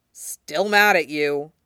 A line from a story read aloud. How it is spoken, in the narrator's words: Zoro grumbles